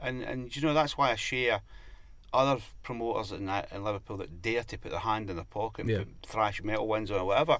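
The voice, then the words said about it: Liverpool accent. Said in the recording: “Liverpool isn't. And I live here. ... as you can tell by the good accent”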